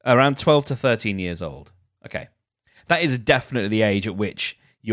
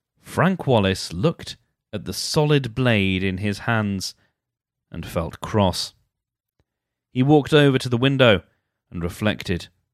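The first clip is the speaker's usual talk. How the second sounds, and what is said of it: Serious, grave storytelling voice. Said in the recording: “Serious voice on ... I'm making it a little bit more serious because I want to add some gravitas to this”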